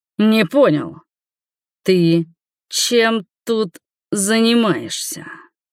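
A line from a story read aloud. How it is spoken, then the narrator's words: Growl. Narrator (Russian): прорычал он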